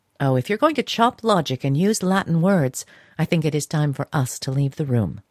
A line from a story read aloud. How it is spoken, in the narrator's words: said Mrs